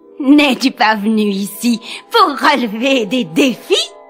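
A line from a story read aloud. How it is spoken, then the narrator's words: Sorcerer's aide sneering. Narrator (French): ricana l'aide du sorcier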